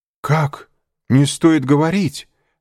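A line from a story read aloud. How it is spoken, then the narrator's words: Exclamation. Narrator (Russian): воскликнул Шато-Рено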